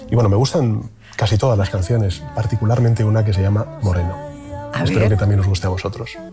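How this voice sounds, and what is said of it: Announcer-like radio voice. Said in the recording (Spanish): “casi se pone con voz de locutor”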